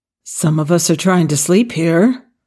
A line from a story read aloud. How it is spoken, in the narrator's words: grumbled